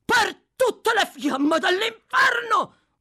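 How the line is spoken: Shout. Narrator (Italian): gridò Sykes

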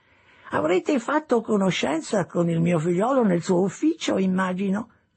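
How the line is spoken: Old man's chirping voice. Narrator (Italian): disse il vecchio con la sua voce pigolante

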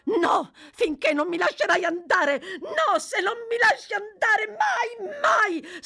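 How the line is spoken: Shrieked. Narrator (Italian): strillò Nancy

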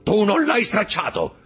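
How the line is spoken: Shouting. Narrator (Italian): gridò Caderousse

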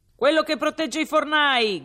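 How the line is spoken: Loud resonant shout. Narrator (Italian): gridava una voce sonora

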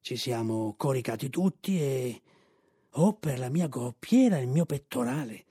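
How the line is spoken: Horse speaking quietly. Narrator (Italian): disse il cavallo sottovoce

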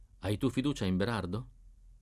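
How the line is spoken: Asked in low voice. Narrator (Italian): mi domandò sottovoce

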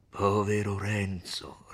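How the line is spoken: Grave, compassionate friar. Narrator (Italian): rispose il frate, con una voce grave e pietosa

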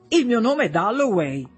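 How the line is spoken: Awkward young man blurting. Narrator (Italian): Un giovanotto biondo, piuttosto impacciato, che sbotta

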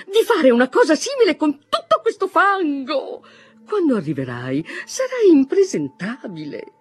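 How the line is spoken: Mother exclaiming. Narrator (Italian): esclamò sua madre

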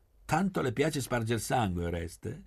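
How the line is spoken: Exclaiming. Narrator (Italian): esclamò Gabriella

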